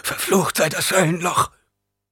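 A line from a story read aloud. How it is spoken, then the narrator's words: Hoarse gasping. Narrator (German): Einer der anderen Geretteten begann mit rauer Stimme zu keuchen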